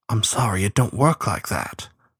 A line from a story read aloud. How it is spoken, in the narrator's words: she whispered to him